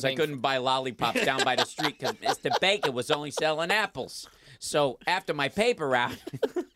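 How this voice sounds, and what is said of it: Exaggerated New York accent. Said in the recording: “giving you the world's craziest New York accent.”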